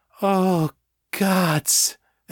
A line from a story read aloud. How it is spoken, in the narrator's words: Emily moaned